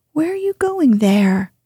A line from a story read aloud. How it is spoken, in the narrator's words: he cried